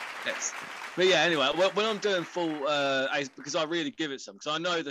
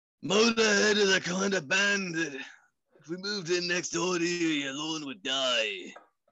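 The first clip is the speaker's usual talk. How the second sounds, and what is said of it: Imitates another person's voice. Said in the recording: “I do a fairly okay Lemmy impression. And being English as well, that doesn't hurt. ... Give me a Lemmy voice. ... Flawless. 10 out of 10.”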